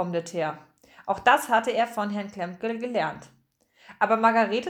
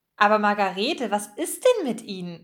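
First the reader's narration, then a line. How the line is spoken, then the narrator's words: Asking. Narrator (German): fragte Frau Fröhlich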